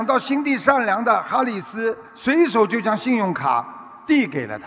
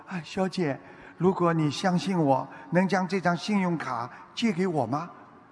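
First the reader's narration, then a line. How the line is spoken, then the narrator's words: Quiet, soft voice. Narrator (Chinese): 有点难为情，小声地说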